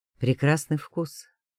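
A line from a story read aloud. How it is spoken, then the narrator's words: Calm. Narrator (Russian): отметил он спокойно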